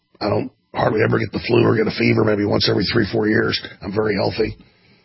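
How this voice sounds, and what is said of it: Unusually deep congested voice. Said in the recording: “my voice sounds particularly deep”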